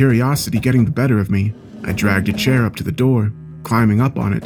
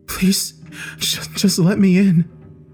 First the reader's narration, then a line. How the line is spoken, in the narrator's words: he whimpered softly